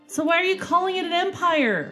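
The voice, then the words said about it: Yelling. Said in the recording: “Sorry, I'm yelling, you guys. Sorry.”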